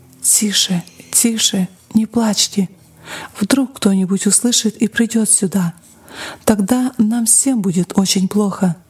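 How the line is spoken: Frightened whisper. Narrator (Russian): Мать испуганно шептала

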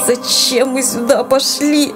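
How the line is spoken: Sobbing boy. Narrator (Russian): Тихо всхлипнув, произнес мальчик

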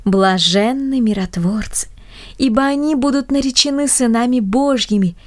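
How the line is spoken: Joyful chorus of grandmothers. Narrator (Russian): дружно поддержали бабушки, радостно

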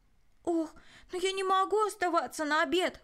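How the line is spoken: Exclaiming. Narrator (Russian): воскликнул Рой

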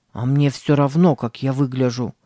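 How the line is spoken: Mutter. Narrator (Russian): пробурчал Сэм

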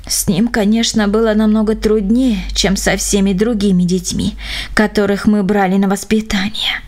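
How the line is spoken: Sighing. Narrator (Russian): вздохнув, сказал он

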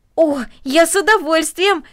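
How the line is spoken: Exclaimed. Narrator (Russian): воскликнул Дино

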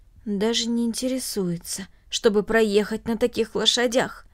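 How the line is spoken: Undertone. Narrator (Russian): добавил вполголоса

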